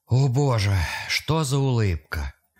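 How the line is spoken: Strained, forced out. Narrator (Russian): Все, что он смог выдавить

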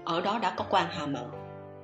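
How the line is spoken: Cold interruption. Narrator (Vietnamese): Kỷ Hán thật lạnh lùng cắt ngang

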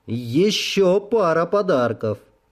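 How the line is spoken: Loud. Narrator (Russian): громко сказал

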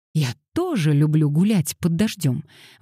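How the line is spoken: Exclaiming. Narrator (Russian): воскликнула Пандора

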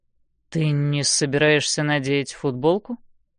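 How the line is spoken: Low voice. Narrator (Russian): говорит низким голосом

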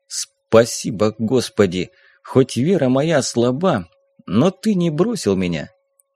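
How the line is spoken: Quiet. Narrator (Russian): тихо произнес

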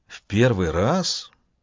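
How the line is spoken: Whispered question. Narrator (Russian): шепотом спросил Харек

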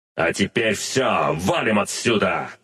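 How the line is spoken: Barked. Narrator (Russian): рявкнул я Агнесу

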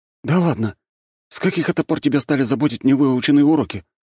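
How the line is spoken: Surprised exclamation. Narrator (Russian): удивленно воскликнул Нарышкин

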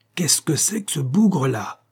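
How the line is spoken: Growled through clenched teeth. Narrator (French): gronda-t-il entre ses dents

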